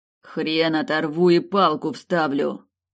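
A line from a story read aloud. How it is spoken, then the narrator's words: Familiar voice growling. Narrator (Russian): Прорычал знакомый голос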